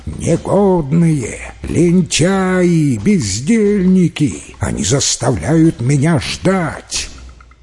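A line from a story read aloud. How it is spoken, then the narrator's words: Frantic, distorted shout. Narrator (Russian): Чжао Байянь закричал не своим голосом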